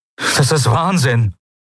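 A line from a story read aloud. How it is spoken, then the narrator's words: Distressed exclamation. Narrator (German): rief er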